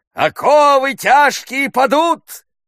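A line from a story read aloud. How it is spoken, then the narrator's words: Shouting. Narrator (Russian): закричал форцовщик Белуга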